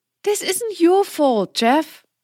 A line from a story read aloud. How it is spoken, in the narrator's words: she pleaded